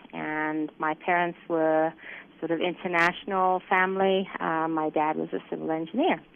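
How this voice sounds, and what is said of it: Kenyan-influenced accent. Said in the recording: “you can probably hear from the accent, I wasn't born in this country. I was actually born in Kenya”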